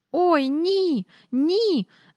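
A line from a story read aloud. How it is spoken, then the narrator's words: Squeal. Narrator (Ukrainian): запищала Джейн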